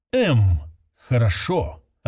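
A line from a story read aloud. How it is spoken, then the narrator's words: Near whisper. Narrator (Russian): ответ был почти шепотом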